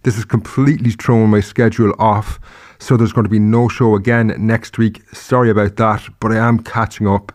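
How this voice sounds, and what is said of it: Sick-sounding voice. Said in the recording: “hear it in my voice, but I actually have COVID at the moment”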